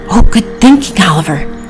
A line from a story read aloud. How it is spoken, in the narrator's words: whispered Priscilla